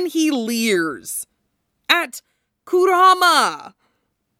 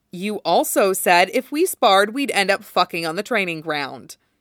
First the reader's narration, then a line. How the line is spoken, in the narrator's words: Kurama says flatly